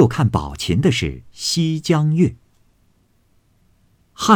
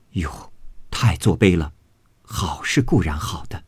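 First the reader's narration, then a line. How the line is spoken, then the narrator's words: Group sighing in admiration. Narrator (Chinese): 众人看了，俱点头感叹，说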